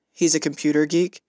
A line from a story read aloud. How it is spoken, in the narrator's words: Luke chuckled